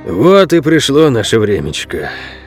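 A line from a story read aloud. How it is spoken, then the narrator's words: Sighing old man. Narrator (Russian): вздохнул старый Ол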